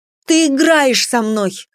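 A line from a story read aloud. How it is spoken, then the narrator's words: Shouting. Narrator (Russian): выкрикнула я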